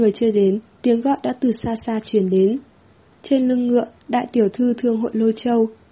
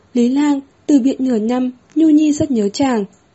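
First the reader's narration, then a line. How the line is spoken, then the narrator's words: Sobbing. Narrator (Vietnamese): nức nở nói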